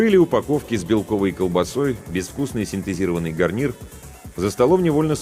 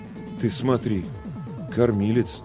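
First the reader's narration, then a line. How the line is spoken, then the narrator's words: Confused mutter. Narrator (Russian): растерянно пробормотал Ларионов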